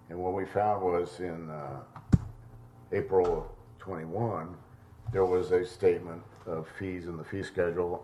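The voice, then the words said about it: Impaired, rough-sounding voice. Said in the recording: “excuse my voice”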